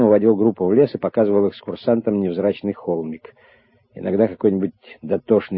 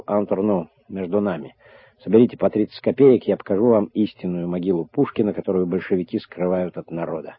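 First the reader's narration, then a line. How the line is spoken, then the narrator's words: Whispering. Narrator (Russian): шептом говорил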